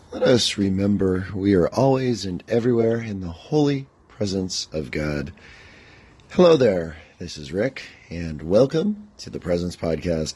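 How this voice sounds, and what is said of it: Tired, unusual-sounding voice. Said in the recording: “I am pretty darn tired. And as you can hear, my voice is not what it usually is.”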